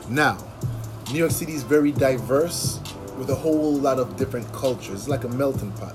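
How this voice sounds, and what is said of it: Jamaican-tinged ethnic accent. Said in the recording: “you're going to hear or detect a certain accent, right? Whatever you want to call it, an ethnic accent ... I'm Caribbean, Jamaican to be specific”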